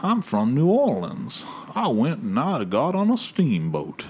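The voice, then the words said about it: Exaggerated New Orleans accent. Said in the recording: “ridiculous New Orleans accent”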